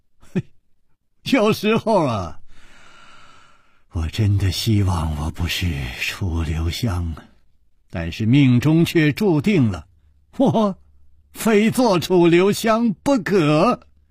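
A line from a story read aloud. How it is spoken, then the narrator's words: With a smile. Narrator (Chinese): 楚留香笑了笑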